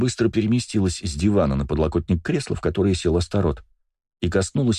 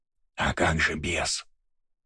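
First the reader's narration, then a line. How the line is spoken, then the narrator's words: Whispered question. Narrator (Russian): шепотом же спросил Бельфигор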